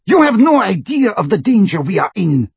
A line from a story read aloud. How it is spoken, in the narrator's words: shrieked Bellatrix